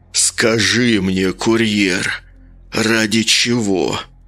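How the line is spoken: Growled. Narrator (Russian): Прорычал он ей в лицо

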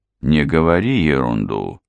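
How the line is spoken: Calm remark. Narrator (Russian): спокойно заметил Хью

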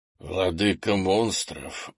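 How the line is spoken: Surprised mutter. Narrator (Russian): удивленно пробормотал Крис, увидев способность генерала в маске

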